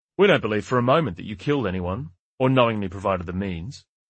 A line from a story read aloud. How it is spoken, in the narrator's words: Orr said